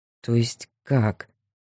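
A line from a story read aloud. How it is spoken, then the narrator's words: Confused. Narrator (Russian): Растерянно сказал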